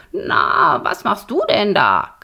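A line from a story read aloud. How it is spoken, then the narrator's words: Croaking. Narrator (German): krächzte Borax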